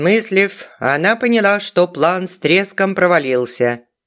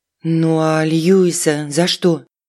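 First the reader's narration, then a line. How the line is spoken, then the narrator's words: Timid question. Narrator (Russian): робко поинтересовалась Алиса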